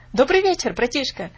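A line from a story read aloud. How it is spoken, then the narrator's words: Shouting. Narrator (Russian): закричал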